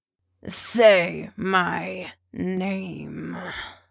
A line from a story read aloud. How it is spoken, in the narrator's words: he growls